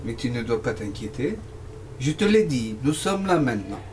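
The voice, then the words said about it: American accent speaking French. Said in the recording (French): “vous n'êtes pas américaine, vous avez un accent bizarre ... j'ai un accent américain”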